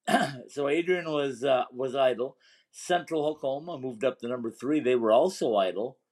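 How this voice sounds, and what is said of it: Strained, failing voice. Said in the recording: “a grumpy old man with a bad voice ... my voice is going again”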